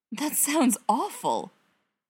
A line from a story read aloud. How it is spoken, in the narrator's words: Bilbo blurts out